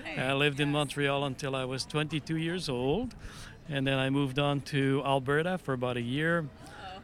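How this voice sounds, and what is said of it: Slight accent. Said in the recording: “you do have a little bit of an accent”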